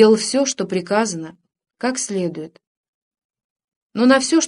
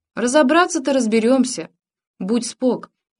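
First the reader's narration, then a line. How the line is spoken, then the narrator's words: Mocking grinning reply. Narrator (Russian): насмешливо осклабясь ответил тот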